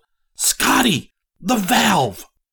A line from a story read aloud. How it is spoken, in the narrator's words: Then what he had seen suddenly registered, and he yelled